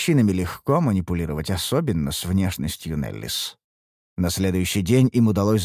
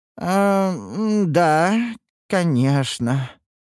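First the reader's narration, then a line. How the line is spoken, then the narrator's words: Disappointed drawl. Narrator (Russian): разочарованно протянул Гилберт, рассчитывающий на иной исход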